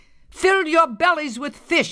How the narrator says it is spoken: shouted

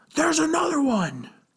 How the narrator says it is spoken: one of the guards shout

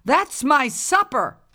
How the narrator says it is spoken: yelled the old woman

